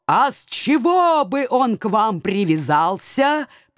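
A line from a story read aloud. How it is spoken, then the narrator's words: Suspicious growl, old bear. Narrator (Russian): подозрительно рычал полуседой медведь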